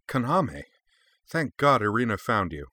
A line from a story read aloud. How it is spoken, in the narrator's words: exclaimed with surprise